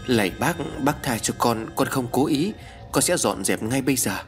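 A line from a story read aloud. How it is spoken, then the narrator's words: Trembling child's mumble. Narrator (Vietnamese): Con bé vi trên tay run rẩy, mồm lẩm bẩm nói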